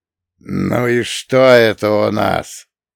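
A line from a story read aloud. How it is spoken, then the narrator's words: Hoarse, joyless alien voice. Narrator (Russian): Сиплый голос далека звучал даже нерадостно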